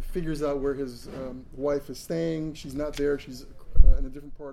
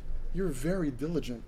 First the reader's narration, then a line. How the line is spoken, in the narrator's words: Hexa said